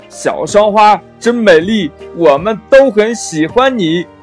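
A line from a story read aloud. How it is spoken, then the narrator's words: Two dogs calling out together. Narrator (Chinese): 大黄狗呢，跟小黄狗一起叫道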